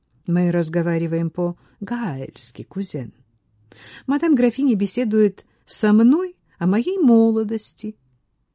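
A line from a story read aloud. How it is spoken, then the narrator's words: Calm explanation. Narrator (Russian): Ниал спокойно объяснил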